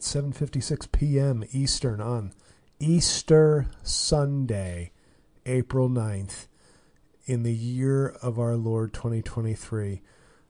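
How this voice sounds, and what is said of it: Sick, under-the-weather voice. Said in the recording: “as you can tell from my voice, or maybe you can, maybe you're not listening closely, I'm still under the weather.”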